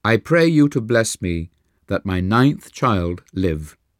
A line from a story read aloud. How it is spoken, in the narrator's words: she said